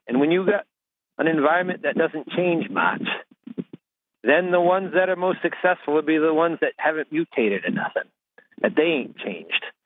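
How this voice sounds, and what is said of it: Rural Maine accent. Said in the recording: “I just love his accent ... If you're calling in from rural Maine, if you can talk like that”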